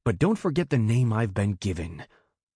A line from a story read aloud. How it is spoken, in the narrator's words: Bast snarled, his tone ice and stone